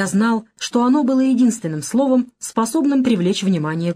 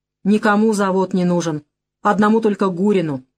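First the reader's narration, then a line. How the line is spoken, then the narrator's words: Grumpy, ordinary tone. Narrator (Russian): совсем уже обычным, брюзгливым тоном сказал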